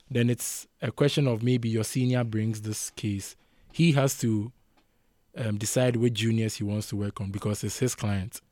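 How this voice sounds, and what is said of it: Portuguese accent. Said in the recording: “your accent ... this be the accent ... I'm Portuguese”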